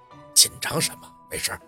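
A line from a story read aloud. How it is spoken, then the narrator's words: Whispered with slight smile. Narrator (Chinese): 雷叔牵着嘴角，悄声地说道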